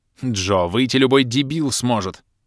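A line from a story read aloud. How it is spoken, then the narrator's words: Growling. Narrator (Russian): прорычала черная баронесса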